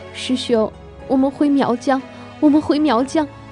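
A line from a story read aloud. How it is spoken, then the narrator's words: Openly sobbing and shouting. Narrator (Chinese): 梅毫不掩饰地哭出声，边哭边喊着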